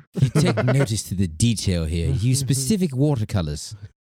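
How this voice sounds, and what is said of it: Put-on accent. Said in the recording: “that was a nice little accent right there”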